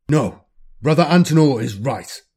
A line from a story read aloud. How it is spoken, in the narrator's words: Diamond says, his tone as hard and as cold as marble